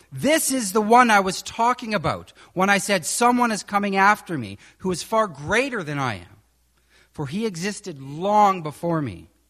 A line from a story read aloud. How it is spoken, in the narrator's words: shouting